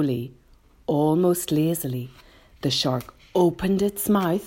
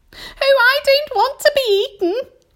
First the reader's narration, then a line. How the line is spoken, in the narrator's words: wailed the earthworm